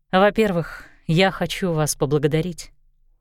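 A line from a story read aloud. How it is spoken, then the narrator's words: Quiet. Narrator (Russian): тихо сказала Энджи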